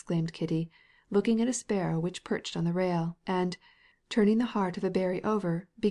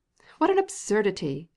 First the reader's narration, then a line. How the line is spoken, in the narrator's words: exclaimed Agafya Mikhailovna